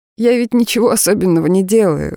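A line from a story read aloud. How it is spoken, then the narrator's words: Laughing objection. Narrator (Russian): возразила я, тоже рассмеявшись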